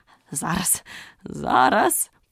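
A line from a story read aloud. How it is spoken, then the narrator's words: Muttering. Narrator (Ukrainian): пробурмотів король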